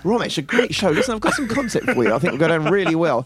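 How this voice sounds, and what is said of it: Put-on middle-class accent. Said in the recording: “he'd gone from a middle class kind of accent”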